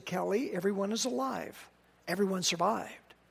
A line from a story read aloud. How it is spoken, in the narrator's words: One paramedic lowered his voice and said